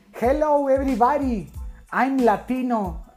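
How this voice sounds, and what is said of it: Forced exaggerated Latino accent in English. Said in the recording (Spanish): “hace ese acento estilo Sofía Vergara ... Como que lo forzo mucho”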